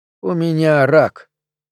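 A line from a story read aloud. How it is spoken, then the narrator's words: Calm. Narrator (Russian): произнес он спокойно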